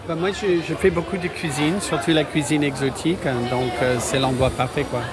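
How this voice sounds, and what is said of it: Slight American accent speaking French. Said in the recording (French): “Je reconnais un petit accent ... Mais je suis américain.”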